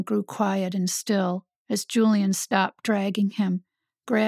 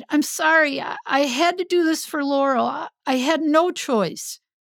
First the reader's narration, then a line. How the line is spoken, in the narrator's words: cried